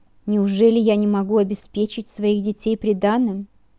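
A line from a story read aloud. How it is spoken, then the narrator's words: Thunderous voice. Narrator (Russian): мой отец произнес громовым голосом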